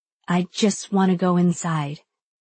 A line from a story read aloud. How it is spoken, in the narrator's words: I say softly